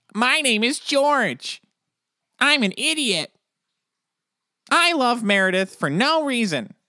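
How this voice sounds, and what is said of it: Terrible impression of George. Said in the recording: “Everything that George says, though, I hear it as ... I don't care for your impression. ... that is really terrible.”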